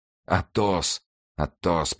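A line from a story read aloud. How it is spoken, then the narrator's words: Whisper. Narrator (Russian): прошептал Д'Артаньян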